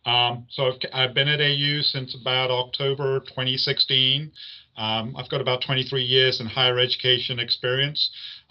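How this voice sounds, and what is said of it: English accent. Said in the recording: “you wanted to know about the accent. So I was born and bred in England.”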